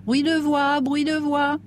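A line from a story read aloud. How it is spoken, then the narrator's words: Shrill yelp. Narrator (French): glapit une voix aigre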